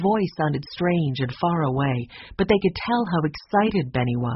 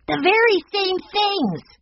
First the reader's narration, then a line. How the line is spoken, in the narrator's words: he shouted